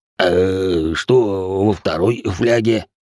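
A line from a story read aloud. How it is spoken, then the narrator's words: Question after laughing. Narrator (Russian): спросил Рэй, отсмеявшись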